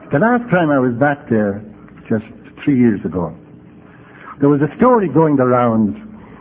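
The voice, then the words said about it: Irish brogue. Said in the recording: “I go back to polish up my brogue.”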